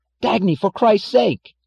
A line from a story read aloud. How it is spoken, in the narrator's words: cried James Taggart in panic